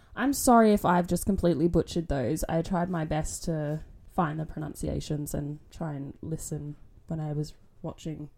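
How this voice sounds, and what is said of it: Australian accent. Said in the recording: “I've got an Australian accent.”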